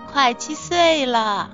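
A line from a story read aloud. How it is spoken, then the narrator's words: Cheerful, grinning. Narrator (Chinese): 笑嘻嘻地说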